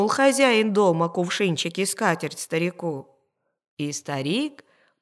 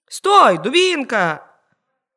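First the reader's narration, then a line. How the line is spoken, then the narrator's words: Old man shouting. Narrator (Russian): крикнул старик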